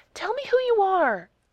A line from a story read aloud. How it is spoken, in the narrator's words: snapped back